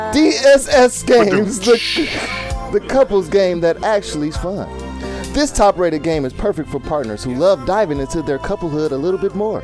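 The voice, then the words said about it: TV shopping announcer voice. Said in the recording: “Why are you talking like that?... Your announcer voice?... This is my QVC... QVC voice. He's selling it.”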